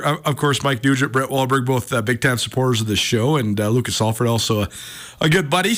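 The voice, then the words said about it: Partly lost, strained voice. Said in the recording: “I'm not actually sick but I've I've lost my voice sort of... Bobby Hauck couldn't hear me at the press conference today... I'll try to make the voice as clear and dulcet as possible”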